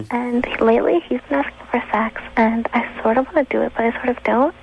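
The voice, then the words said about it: Young, little-girl-sounding voice. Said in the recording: “You got that little girl voice.”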